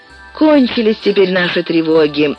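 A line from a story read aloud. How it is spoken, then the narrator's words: Relieved sigh, two speakers. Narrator (Russian): вздохнули с облегчением меченосец и Акоги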